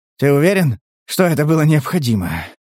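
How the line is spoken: Wheezing question. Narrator (Russian): хрипя спросил Стас

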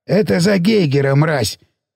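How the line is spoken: Curt, over shoulder. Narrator (Russian): бросил Сиплый через плечо

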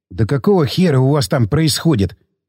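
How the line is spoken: Curious whisper. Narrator (Russian): прошептал, изнывая от любопытства, следящий за тылами балаган

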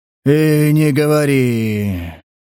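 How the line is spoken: Sigh. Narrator (Russian): вздохнул

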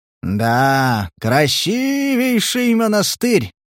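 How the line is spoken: Drawn-out drawl. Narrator (Russian): протянул возница

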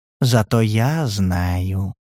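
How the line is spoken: Purring. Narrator (Russian): промурлыкал Валентин

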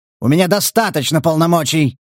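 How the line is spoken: Barked commanding voice. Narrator (Russian): рявкнул майор хорошо поставленным командирским голосом

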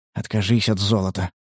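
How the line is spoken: Whisper. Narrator (Russian): прошептал он

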